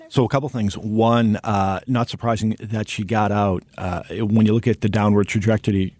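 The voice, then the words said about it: Boston accent. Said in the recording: “you have the Boston accent”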